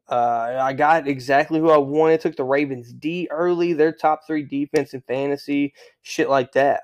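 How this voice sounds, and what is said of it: Country accent. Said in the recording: “I keep talking in a country accent. It just keeps coming out of me ... my country accent for real, like, pops out. Like, it just starts coming off the tongue like molasses”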